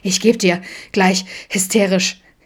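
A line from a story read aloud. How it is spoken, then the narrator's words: Gasping. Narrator (German): japste Adam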